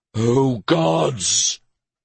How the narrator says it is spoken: bellowed

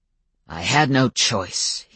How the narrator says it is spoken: he snapped at me

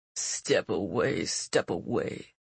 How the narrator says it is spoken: her attacker muttered darkly

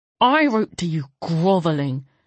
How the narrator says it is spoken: McLay spat

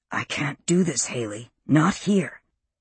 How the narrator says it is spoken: whispered close to her ear

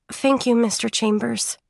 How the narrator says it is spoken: she murmured, full of resignation

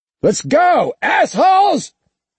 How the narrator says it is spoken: he yelled even louder

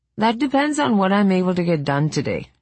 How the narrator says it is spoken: said, laughing

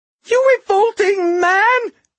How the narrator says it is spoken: she shrieked at DeGosta

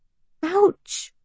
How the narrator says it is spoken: the boy yelps

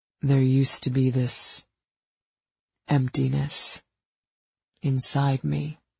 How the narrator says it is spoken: he said quietly

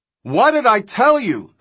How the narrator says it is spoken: Thorne shouted

